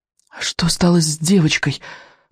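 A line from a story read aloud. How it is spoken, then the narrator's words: Horrified, forced out. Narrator (Russian): в ужасе выдавил, наконец, Икинг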